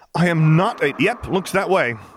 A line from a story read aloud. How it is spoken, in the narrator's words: Jason said loudly over her